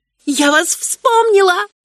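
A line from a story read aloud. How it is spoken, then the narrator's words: Exclaiming. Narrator (Russian): воскликнула я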